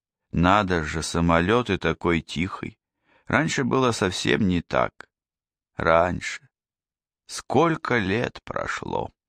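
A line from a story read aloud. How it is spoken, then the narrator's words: Whispered to herself. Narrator (Russian): Ибу Диана шептала про себя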